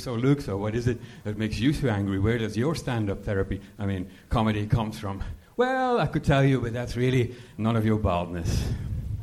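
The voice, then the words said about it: Slight Belgian accent. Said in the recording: “You have a little bit of an accent. ... From Belgium.”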